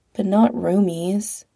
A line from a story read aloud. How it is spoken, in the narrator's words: Pete said sadly